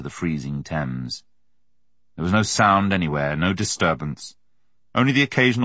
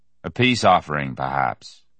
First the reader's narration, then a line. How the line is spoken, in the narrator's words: said Frank Dawson, with no trace of expression in his deep Buckinghamshire voice